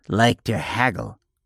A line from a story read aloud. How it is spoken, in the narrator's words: he said, with something resembling a sneer